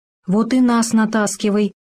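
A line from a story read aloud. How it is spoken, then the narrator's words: Heavy sigh. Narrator (Russian): тяжело вздохнул заяц Толстун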